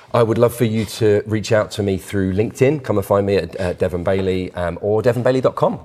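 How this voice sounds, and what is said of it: English accent. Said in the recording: “speaking with an English accent”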